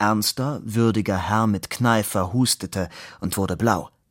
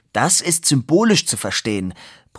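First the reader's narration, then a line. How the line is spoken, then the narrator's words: Roared. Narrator (German): brüllte Fabian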